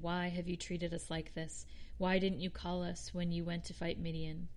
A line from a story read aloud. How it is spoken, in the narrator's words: they criticized him sharply